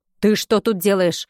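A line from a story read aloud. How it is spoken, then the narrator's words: Stern booming grandmother. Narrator (Russian): прогремел строгий голос бабушки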